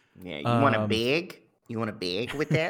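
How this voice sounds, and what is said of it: Michigan Upper Peninsula accent. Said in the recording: “my UP accent isn't very good”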